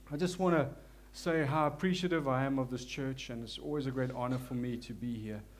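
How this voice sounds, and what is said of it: South African accent. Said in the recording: “As you can hear, forgive my South African accent. There's nothing I can do about it.”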